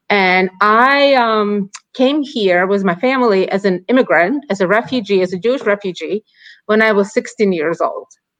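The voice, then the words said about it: Ukrainian accent in English. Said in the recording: “as you can probably sense by my accent, I wasn't born in the United States. I was born in Ukraine”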